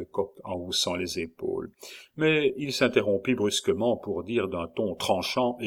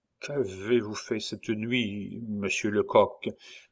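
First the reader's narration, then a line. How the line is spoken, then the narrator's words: Nervous stammer, young man. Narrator (French): balbutia notre jeune Alsacien, au front de qui perlaient des gouttes de sueur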